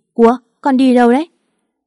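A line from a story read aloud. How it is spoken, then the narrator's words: Trembling child. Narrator (Vietnamese): Con bé run rẩy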